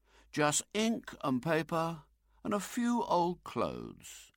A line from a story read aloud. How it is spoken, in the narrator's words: said wistfully